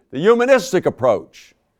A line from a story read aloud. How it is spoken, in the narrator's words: He shouted